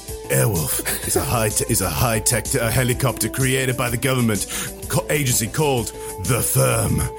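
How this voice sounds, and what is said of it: Movie trailer narrator voice. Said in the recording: “put on my my trailer voice? It's really bad”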